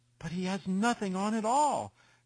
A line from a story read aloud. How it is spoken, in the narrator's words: cried at least the whole people